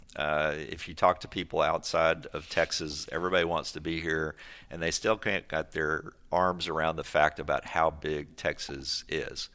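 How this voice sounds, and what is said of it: Texas accent. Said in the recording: “I also know my accent ... we just stand out as soon as we open our mouth”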